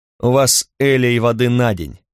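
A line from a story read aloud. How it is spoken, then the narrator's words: Mocking remark. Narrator (Russian): насмешливо заметил я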